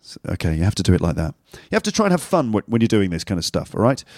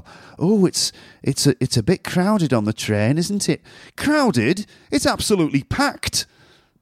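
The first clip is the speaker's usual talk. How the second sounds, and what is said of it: Put-on northern English accent. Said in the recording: “in a northern accent”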